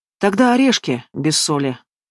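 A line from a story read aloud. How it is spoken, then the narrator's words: Mournful sigh. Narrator (Russian): со скорбным видом вздохнул Игнат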